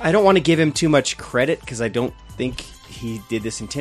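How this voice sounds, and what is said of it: Usual voice. Nothing is said of it.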